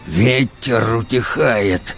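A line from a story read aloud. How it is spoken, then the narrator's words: Furious growl. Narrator (Russian): зарычал он с недаемым бешенством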